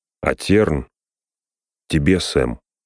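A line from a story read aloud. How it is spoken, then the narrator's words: Plain. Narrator (Russian): сказал он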